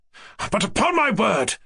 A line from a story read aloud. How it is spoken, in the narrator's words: cried Ganya, suddenly exploding and raising his voice immoderately